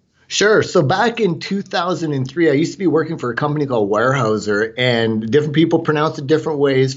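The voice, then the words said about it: Canadian English accent. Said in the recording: “Forgive my Canadian accent.”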